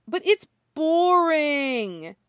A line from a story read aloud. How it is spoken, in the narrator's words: he whines